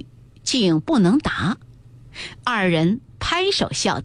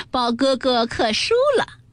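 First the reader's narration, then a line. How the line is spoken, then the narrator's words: Laughing, clapping. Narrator (Chinese): 湘云也拍手笑道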